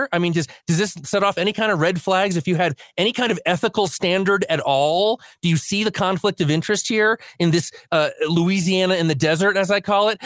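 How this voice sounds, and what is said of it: Voice rising, increasingly agitated. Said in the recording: “my voice is going up and up and up ... I'm going to calm down”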